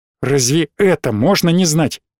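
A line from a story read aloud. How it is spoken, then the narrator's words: Almost angry question. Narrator (Russian): спросил он почти сердито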